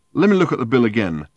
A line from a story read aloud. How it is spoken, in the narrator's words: said Ford